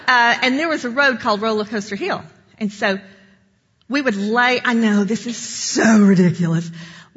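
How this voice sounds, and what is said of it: East Tennessee Southern accent. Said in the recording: “I'm from East Tennessee. I know you thought my accent was the Bronx, but it's actually not.”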